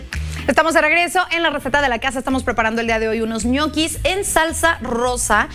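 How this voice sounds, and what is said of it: Northern Mexican accent. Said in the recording (Spanish): “¿Y volviste a sacar tu acento norteño?”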